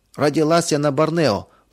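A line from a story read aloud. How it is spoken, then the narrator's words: Girl's squeak. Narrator (Russian): пропищал кто-то из девочек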